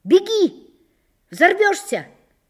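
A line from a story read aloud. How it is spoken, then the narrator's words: Shouting from a shed. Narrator (Russian): закричали в сарае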